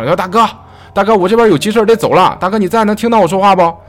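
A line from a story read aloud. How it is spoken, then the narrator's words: Calling out. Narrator (Chinese): 大哥又又喊了两声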